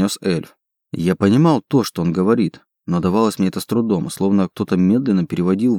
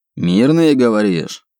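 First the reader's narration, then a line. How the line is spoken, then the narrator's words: Suspicious demon's bark. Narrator (Russian): подозрительно рявкнул демон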